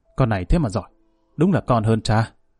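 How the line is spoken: Approving mutter. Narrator (Vietnamese): Lão Bình Chọc gật gù miệng lẩm bẩm

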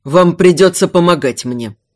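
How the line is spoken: Icy command. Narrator (Russian): ледяным тоном приказал Эйдард

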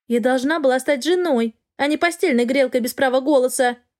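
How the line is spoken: Young woman shouting. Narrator (Russian): прокричала девушка

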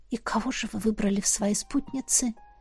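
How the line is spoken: Barely audible, fearful. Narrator (Russian): спросила я едва слышно, боясь пошевелиться

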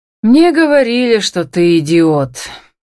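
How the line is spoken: Sad summing up. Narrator (Russian): печально подытожил Марк

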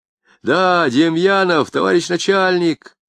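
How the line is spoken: Shouting. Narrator (Russian): закричал Акошкин Баландину

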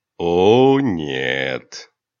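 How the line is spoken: Low purring voice near ear. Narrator (Russian): Мурлыкающий низкий голос раздался у ее уха

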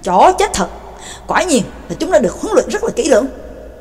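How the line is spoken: Loud cursing. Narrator (Vietnamese): Ngưu Nhị Oa lớn tiếng chửi

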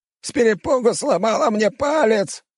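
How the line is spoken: Shouted. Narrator (Russian): выкрикнул Ибрахт

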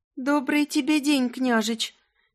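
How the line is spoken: Slightly trembling, shy female voice. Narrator (Russian): Чуть дрожащим голосом сказала, заливаясь румянцем больше обычного

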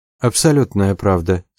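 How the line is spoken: Calm. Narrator (Russian): спокойно сказал тот

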